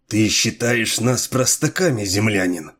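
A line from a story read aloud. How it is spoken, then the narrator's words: Through gritted teeth. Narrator (Russian): процедил сквозь зубы самый молодой из лордов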